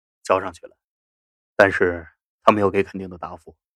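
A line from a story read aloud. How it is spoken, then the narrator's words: Deep, heavy voice. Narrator (Chinese): 整个人云遮雾罩，肖冰沉声说着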